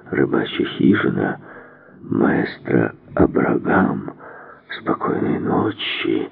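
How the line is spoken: Stunned mumbling. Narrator (Russian): Совершенно ошеломленный гофмаршал бормоча

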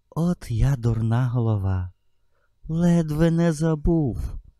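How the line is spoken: Exclaiming. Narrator (Ukrainian): вигукнув

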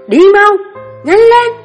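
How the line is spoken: Shouting. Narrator (Vietnamese): Ta hét lên

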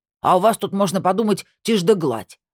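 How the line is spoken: Snapped back. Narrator (Russian): огрызнулся он

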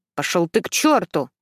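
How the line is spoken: Angry outburst. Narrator (Russian): зло выпаливаю

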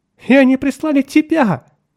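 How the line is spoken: Sobbing. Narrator (Russian): всхлипывала

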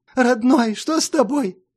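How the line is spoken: Tearful whiny question. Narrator (Russian): плаксивым голосом спросила она

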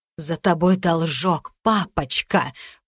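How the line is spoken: Hiss. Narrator (Russian): прошипела Эшли

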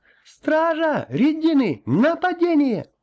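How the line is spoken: Shouting. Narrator (Russian): Тола закричала

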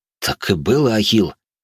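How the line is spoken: Confused mumble. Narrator (Russian): растерянно пробормотал воин

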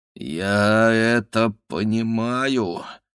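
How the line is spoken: Groaning. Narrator (Russian): простонал он

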